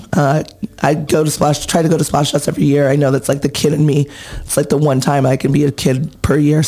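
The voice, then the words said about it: Hoarse, nearly lost voice. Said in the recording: “You can obviously hear my voice is pretty much gone from cheering ... hopefully next year my voice won't be so horrible and gone”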